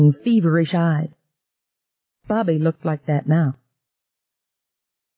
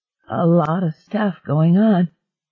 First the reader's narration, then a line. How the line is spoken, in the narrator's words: Bobby croaked in her wavering voice